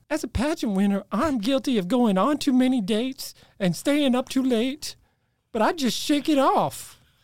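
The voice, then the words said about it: Put-on reality TV pageant accent. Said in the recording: “I'm trying to place that accent. That was something special. ... If you watch enough reality TV, they all have something special in that accent.”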